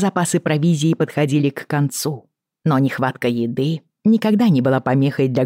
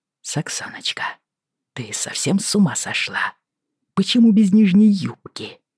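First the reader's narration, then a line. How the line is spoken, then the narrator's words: Hissed. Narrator (Russian): прошипел он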